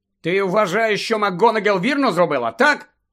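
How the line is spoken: Angry bark. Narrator (Ukrainian): Сердито гаркнув Гаррі

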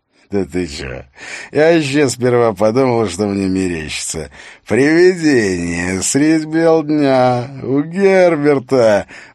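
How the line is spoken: Loud laugh into wet cough. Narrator (Russian): Он громко расхохотался, но смех скоро перешел в мокрый, клокочущий кашель

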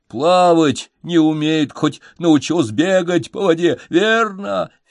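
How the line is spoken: Loud laughter. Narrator (Russian): Феликс захохотал

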